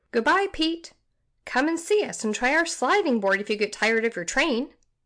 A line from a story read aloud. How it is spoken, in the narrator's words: cried Dick